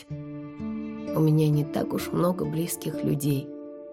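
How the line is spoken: Quiet. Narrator (Russian): тихо сказала я

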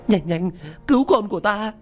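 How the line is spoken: Screaming. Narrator (Vietnamese): gào thét

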